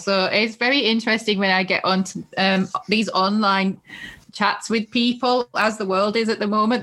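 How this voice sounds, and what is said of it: Strong Northeast English accent. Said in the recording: “if anybody from the UK is listening, they'll know from my accent straight away, it's the Northeast. It's a really obvious giveaway... I still have a very, very strong accent”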